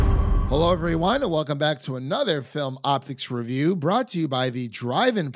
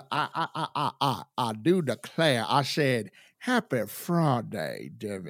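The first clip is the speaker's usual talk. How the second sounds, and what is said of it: Put-on Southern American accent. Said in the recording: “Where's the Southern accent? Come on. ... that Southern Ohio, West Virginia accent”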